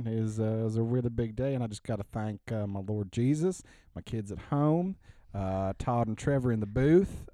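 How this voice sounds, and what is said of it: Put-on Southern accent. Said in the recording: “Best Southern accent.”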